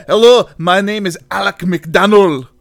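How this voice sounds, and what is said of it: Put-on Aberdonian Scottish accent. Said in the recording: “that Aberdonian accent ... He's from Aberdeen. He's an Aberdonian. ... Not bad.”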